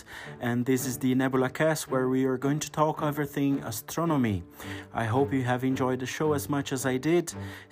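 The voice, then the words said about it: Speaks with a noticeable accent. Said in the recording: “your host with a funny accent”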